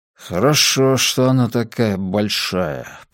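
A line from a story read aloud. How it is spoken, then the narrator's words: Muttering. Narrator (Russian): пробормотал отец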